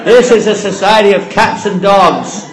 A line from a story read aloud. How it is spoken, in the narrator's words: he's shouting